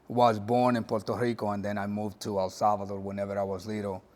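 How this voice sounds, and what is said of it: Latin American Spanish-accented English. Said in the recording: “Didn't grow up here in the U.S., as you can tell in my accent.”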